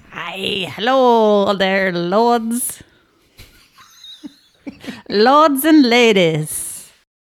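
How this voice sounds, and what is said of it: Put-on medieval-style accent. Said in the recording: “try your medieval times accent”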